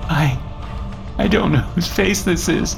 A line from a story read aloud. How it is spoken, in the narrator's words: Christina sobbed